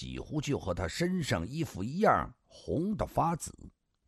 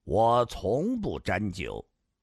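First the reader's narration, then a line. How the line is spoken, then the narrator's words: Flat, indifferent. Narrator (Chinese): 上官金虹淡淡的说道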